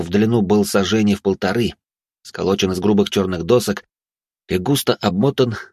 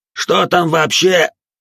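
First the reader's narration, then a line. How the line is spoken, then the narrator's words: Still loud. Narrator (Russian): Все так же громко начал было экзорцист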